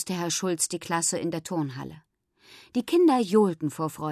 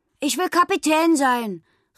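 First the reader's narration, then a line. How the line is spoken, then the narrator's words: Calling out. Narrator (German): rief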